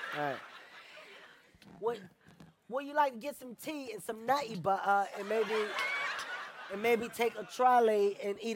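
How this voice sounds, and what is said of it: Poor put-on English accent. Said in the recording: “your English accent ... My English accent? ... it's awful. It's horrible.”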